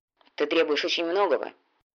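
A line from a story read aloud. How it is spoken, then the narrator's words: Grumbling mutter. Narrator (Russian): буркнул всадник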